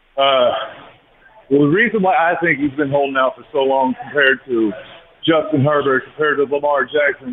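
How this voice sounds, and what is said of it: Out of breath. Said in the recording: “I'm a little out of breath.”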